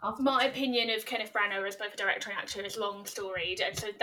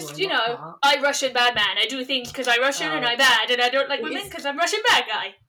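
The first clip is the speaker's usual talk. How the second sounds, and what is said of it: Mock Russian bad-guy accent. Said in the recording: “That's a pretty good impression,”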